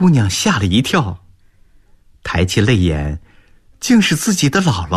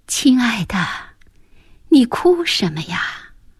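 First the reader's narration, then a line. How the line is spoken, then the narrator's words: Fairy, soft. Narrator (Chinese): 仙女，轻声地说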